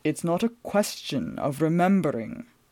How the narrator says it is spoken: Marcus said gloomily

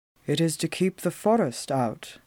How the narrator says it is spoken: he said quietly

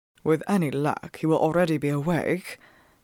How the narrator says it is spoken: Phelps muttered to me over his shoulder

